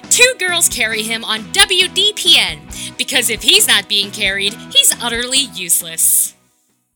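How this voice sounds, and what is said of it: Radio announcer voice. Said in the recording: “announcer voice”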